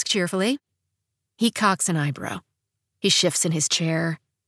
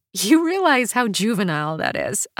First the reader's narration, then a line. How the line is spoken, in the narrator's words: I say, still laughing a bit